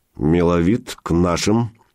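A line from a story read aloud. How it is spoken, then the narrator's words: Through clenched teeth. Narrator (Russian): не разжимая зубов, процедил Илья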